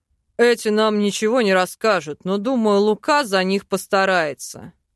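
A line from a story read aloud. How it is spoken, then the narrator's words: Snorting. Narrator (Russian): хмыкнул Велитар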